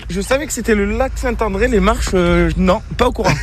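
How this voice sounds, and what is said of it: Regional French accent from Cantal. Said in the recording (French): “rien que votre accent, vous venez d'où ? ... Du Cantal.”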